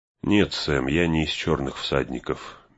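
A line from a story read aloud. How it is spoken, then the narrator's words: Gentle. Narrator (Russian): мягко сказал он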